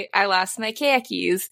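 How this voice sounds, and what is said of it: Put-on Boston accent. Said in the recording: “If you would like to talk with a Boston accent, All you have to say is the word khakis ... I lost my car keys in a Boston accent ... It does work.”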